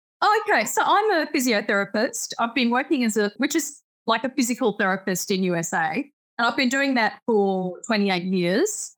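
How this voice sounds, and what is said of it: Distinct Australian accent. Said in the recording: “it's such a distinct accent, right?”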